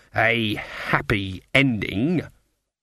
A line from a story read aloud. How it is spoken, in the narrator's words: she spat the words